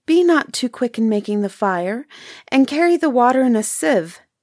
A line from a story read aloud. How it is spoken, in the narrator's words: The little girl begged her